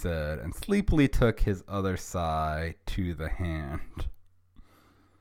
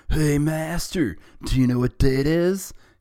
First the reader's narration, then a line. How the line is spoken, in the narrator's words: He asked excitedly